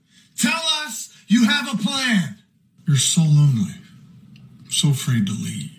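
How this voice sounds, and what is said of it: Impressions of Star Wars characters. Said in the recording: “I'm going to do some random Star Wars impressions from the sequel trilogy”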